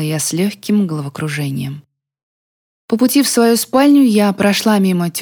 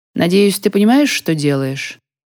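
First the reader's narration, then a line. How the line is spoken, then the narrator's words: Calm. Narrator (Russian): спокойно произнесла она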